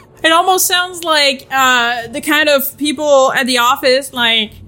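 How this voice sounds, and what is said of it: Usual voice. Nothing is said of it.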